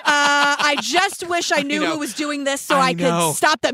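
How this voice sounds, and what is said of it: Imitates another person's voice. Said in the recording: “my best impression of Melvin”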